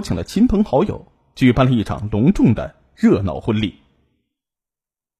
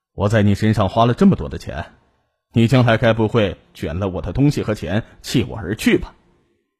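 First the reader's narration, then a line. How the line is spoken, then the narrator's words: Half joking, half serious. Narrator (Chinese): 他半开玩笑半认真的说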